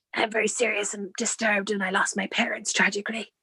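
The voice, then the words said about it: Deep, gravelly Batman-style voice. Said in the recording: “puts on this sort of, oh, I'm Batman kind of voice ... It's either my Batman voice or tuberculosis”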